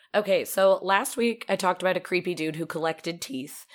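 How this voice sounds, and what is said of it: Raspy, deeper voice with a cold. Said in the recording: “Sorry for any of my coughing or raspiness ... I have a little bit of a cold ... I'm a little extra manly”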